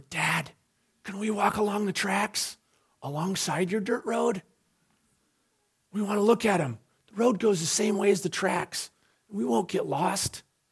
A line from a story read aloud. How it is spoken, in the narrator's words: We whispered